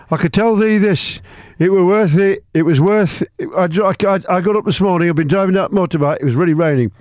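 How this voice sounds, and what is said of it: Imitated Sheffield Yorkshire accent. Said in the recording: “He come from Sheffield. ... In case you think that's a Swedish accent.”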